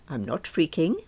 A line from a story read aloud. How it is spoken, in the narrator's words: said as calmly as I could manage